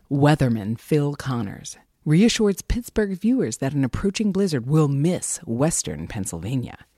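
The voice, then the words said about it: Movie announcer voice. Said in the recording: “do the movie announcer voice.”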